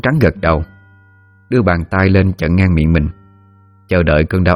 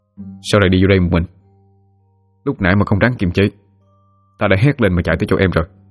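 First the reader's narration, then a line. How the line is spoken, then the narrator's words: Soft gentle question. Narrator (Vietnamese): Sói khẽ hỏi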